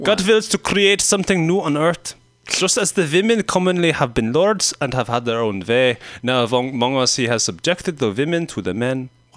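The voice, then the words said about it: Deliberately bad German accent. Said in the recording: “A kind of stupid, like a terrible German accent?”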